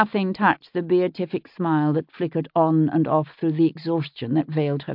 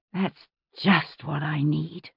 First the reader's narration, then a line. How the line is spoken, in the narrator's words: she muttered